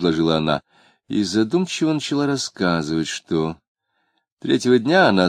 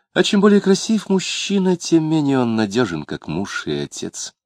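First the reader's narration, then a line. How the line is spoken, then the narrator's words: Sighing. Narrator (Russian): Вздохнув, она сказала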